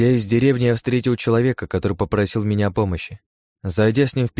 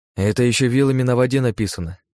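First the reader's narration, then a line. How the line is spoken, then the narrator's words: Calm. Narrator (Russian): спокойно ответил я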